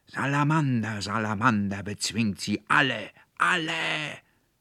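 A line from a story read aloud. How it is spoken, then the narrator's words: Roared in fury. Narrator (German): brüllte der Konrektor Paulmann in höchster Wut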